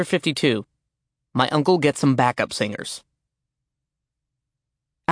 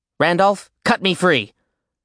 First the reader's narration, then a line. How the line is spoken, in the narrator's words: Alex snapped